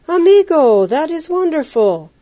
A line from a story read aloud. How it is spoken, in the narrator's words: Pedro exclaimed